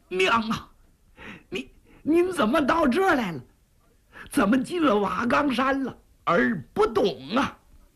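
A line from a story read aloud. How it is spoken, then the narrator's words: Crying while asking. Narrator (Chinese): 一边哭，裴元庆一边问呢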